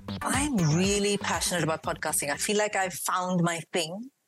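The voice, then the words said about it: Mixed Indian and British accent. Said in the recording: “I've got a mix of an Indian accent and a British accent and this random mix of, I don't know how many accents,”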